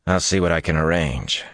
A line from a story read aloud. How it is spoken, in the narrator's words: he said dryly